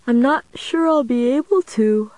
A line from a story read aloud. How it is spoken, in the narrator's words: I said, stifling another yawn